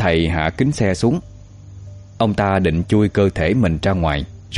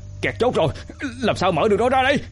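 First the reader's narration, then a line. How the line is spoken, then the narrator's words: Desperate shout. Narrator (Vietnamese): Người đệ tử hét lên trong tuyệt vọng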